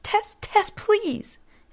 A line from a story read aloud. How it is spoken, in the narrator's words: pleaded, covering her ears